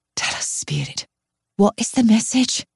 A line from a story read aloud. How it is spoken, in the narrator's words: whispers